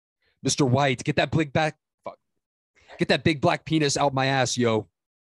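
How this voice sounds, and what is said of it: Jesse Pinkman impression. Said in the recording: “I have a pretty good Jesse Pinkman impersonation, I've been told”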